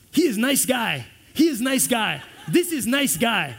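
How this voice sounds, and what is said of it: Put-on Japanese accent. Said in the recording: “it's hard to say R and L when you have a Japanese accent.”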